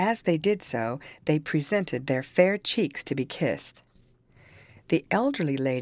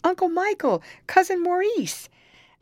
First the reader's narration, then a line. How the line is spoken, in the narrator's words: the two girls, exclaiming